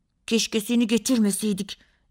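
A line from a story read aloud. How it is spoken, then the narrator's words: Angry voice. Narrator (Turkish): dedi Barış kızgın bir sesle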